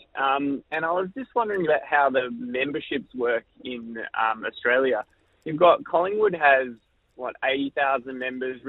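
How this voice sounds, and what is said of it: German accent. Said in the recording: “I'm actually from Munich originally, below my accent.”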